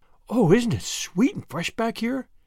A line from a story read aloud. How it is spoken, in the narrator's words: breathed Anne